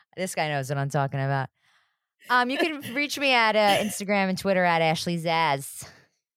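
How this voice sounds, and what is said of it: Sebastian Maniscalco impression. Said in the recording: “That was my Sebastian Maniscalco impression. ... He's a comedian.”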